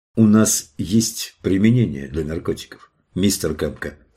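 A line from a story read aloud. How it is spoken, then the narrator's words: Plain. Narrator (Russian): сказал Лаури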